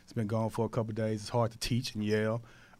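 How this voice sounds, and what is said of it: Hoarse, weak voice. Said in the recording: “I'm a little under weather. My voice is gone.”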